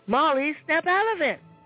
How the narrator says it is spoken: Grandpa shouted

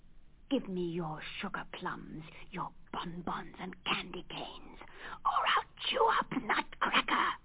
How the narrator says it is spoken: he hissed

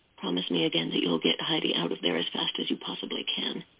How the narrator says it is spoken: she whispered

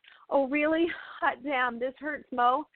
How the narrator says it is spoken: gasped

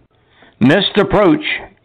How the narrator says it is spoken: yelled Captain Morpheus

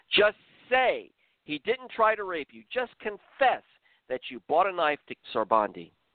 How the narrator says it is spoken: One of the tall, muscular interrogators looked Rahane intently into her eyes and screamed

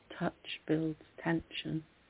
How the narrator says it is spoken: you whisper

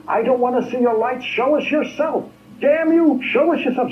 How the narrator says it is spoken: I was screaming

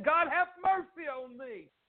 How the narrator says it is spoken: cried out and said

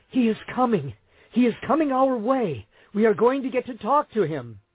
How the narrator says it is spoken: In wonderment, they exclaim

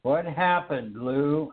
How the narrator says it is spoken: I asked

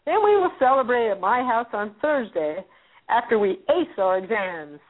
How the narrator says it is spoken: says Mary cheerfully

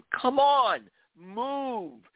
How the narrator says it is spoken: the security guard yelled

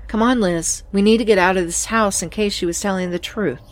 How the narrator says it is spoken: said calmly

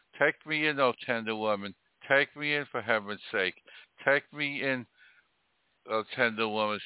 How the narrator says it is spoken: sighed the snake

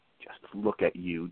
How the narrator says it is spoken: Daniel whispered, spitting with disgust

